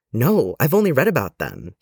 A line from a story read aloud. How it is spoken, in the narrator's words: explained, excitedly